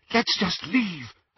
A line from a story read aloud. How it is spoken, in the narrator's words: Hermione whispered